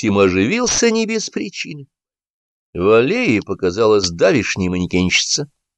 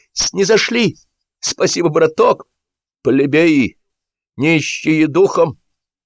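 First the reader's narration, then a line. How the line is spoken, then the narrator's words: Shouted. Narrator (Russian): Клавдин, но тут же взъерошился и закричал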